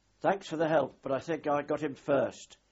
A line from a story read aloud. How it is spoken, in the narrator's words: shouted up to him amidst the roar of his engines, twin Chryslers